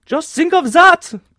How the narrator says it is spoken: cried the manageress in English with a strong German inflection

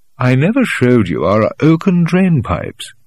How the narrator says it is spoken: he said

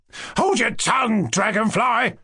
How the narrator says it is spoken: Lebediev shouted at her

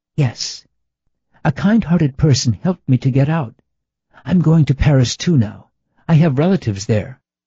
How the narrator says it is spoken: the woman said rapidly, in a soft voice

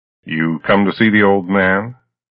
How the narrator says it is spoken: The laugh behind the glass was rich and throaty

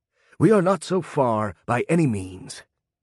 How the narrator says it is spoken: he panted

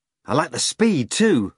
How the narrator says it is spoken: Margarita spoke excitedly

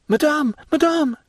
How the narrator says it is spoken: cried Valentine, calling her stepmother and running upstairs to meet her

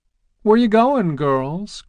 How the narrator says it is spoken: cried Miss Fern and Miss Roberta from their porch over the way

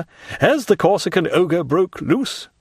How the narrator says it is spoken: cried

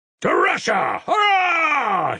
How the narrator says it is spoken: he shouted again

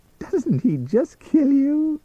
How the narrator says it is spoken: She giggled

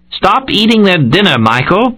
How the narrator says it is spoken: Brett shouted from the wine barrels

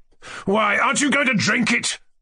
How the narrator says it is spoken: roared Trudolyubov, losing patience and turning menacingly to me

